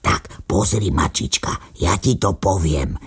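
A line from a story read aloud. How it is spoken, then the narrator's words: Little dog whispering. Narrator (Slovak): šepkal psíček mačičke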